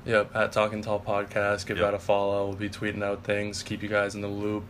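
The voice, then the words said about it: Sick, slightly off hoarse voice. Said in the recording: “My voice is a little off. I'm sick, actually ... Recording this podcast with strep throat.”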